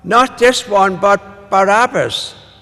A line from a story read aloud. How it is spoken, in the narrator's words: They cried out